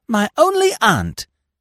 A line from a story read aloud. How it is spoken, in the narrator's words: She exclaimed